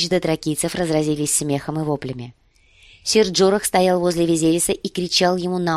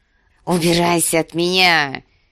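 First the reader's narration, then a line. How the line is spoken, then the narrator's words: Hissing. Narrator (Russian): прошипел Визерис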